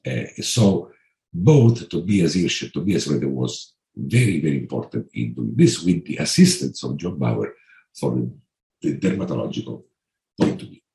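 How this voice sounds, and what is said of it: Italian accent. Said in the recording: “my Italian accent”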